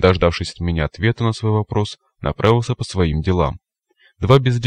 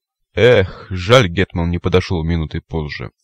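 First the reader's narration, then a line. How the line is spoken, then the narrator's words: Grieving sigh. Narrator (Russian): сокрушенно вздохнул сикач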